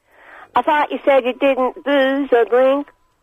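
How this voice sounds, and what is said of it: Put-on American accent. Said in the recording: “I'm not Irish tonight. I'm American. I put on my American accent.”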